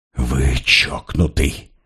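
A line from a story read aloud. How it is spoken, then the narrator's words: Hissed, emphatic. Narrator (Russian): прошипел Поль, подчеркивая обращением на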